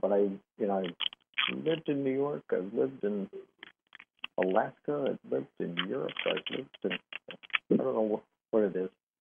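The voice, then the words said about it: Smoky relaxed voice, slight mixed accent. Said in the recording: “This is a smoky, relaxed kind of... with a slight accent... got a combination accent”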